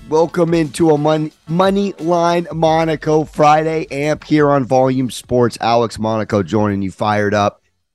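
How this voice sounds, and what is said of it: Hoarse, strained voice. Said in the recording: “My voice is absolutely cooked... But the voice is cooked. I'm screaming all night, all day.”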